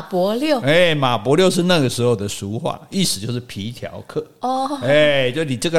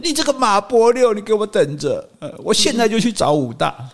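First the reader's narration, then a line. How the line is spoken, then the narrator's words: Crying. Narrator (Chinese): 运哥就一边哭 说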